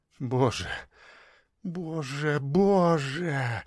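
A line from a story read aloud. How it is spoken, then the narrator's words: Muffled muttering. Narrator (Russian): пробормотала Зоя, закрывая лицо руками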